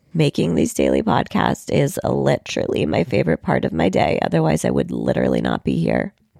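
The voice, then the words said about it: Sick, strained, nearly lost voice. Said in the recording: “I am clearly pretty sick and I've lost my voice.”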